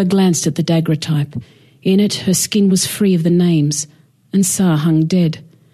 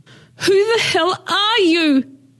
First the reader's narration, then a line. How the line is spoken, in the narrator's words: she screamed